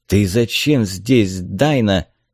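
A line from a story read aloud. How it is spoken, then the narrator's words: Hiss. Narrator (Russian): прошипел он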